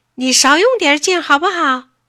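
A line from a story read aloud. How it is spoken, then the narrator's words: Shouting at someone. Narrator (Chinese): 铃声冲着王华嚷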